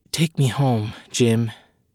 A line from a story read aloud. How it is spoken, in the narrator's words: whispered into his ear